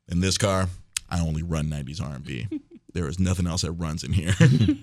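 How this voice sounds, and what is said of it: Smooth radio DJ voice. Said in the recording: “I go into the DJ voice. ... you got the voice”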